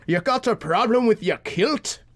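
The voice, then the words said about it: Bad put-on Scottish accent. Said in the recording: “That was a terrible Scottish accent.”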